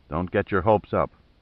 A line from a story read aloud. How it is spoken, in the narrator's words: said Stowe evenly